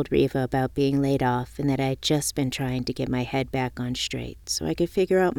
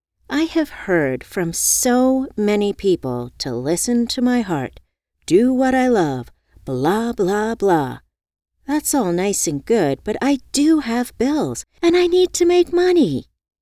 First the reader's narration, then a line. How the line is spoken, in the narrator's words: I exclaimed